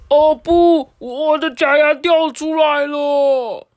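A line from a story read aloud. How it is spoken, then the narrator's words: Loud cry. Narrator (Chinese): 阿海啊，大叫说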